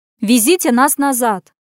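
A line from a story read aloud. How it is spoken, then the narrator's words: Abrupt bark. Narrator (Russian): Без предисловий рявкнула Лена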